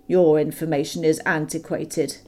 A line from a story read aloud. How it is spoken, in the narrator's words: he snapped